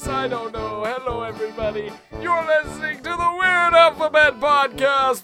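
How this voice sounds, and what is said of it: Strained old man voice. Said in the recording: “this is my old man voice ... lose his voice and lose all of his breath”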